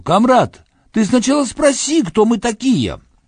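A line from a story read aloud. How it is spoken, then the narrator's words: Shout. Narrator (Russian): крикнуть немцу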